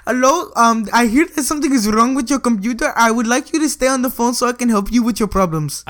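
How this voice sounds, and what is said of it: Put-on Indian accent. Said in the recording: “you just did the Indian accent again”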